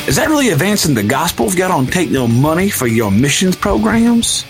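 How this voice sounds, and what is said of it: Put-on Southern Alabama accent. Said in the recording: “I live in Alabama. I just all of a sudden just want to do that accent.”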